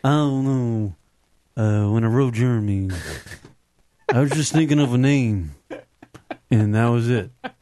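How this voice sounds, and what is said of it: Imitates another person's voice, uninterested. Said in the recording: “can you do a Eddie Vedder impersonation? ... He just didn't sound interested.”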